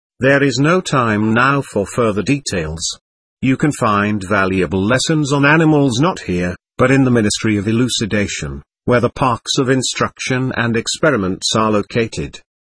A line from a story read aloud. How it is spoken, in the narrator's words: Narcissa, gazing at me kindly, continued